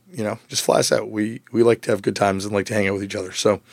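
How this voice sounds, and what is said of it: Hoarse, worn-out voice. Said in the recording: “my voice is a little shot from this weekend of playing shows”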